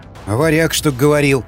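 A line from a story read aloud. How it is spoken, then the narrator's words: Skeptical grunt. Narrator (Russian): хмыкнул Васнецов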